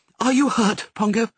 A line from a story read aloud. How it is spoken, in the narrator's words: cried